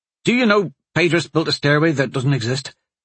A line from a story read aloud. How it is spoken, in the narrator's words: he blurted out